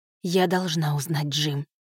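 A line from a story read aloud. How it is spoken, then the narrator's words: Quiet but resolute. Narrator (Russian): сказала она тихо, но решительно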